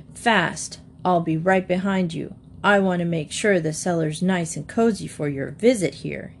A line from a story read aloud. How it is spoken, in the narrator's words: chuckled maliciously